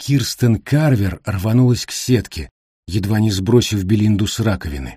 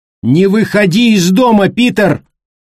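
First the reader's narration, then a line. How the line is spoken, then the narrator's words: Shouted. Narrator (Russian): прокричала она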